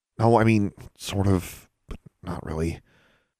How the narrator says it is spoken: Alexandra stammered

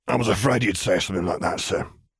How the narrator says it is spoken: muttered lowly

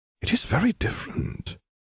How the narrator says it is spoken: she said softly

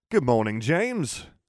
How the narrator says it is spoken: exclaimed Peter Pettigrew, Esquire, Solicitor at Law, Order of Merlin, First Class, and Steward and Proxy for the House of Potter

